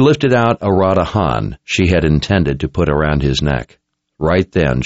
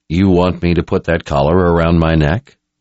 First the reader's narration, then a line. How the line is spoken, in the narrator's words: Nathan asked in a calm voice